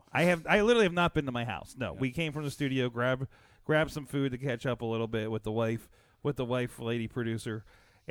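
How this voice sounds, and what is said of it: Worn-out, strained voice. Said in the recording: “I'm sure you can hear in my voice. I got a little bit. I'm sounding only slightly better than Michael Cole at the end of 19 hours of WrestleMania.”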